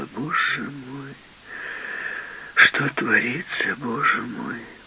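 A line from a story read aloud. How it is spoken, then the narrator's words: Sorrowful woman's tutting mutter. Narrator (Russian): Какая-то женщина горестно цокала языком и бормотала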